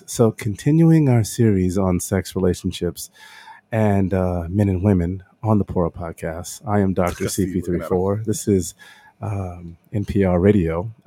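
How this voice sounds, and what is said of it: Mock public radio announcer voice. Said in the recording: “I gotta do my NPR voice.”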